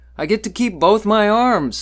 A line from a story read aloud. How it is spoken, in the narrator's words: the old man chuckled